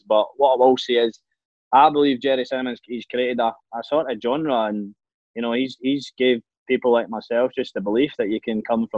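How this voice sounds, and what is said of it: East Coast Scottish accent. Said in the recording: “I sing with a Scottish accent, so albeit an East Coast accent instead of a West Coast accent”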